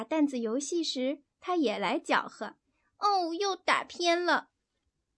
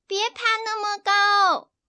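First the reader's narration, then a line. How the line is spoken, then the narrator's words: Shouting. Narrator (Chinese): 她又喊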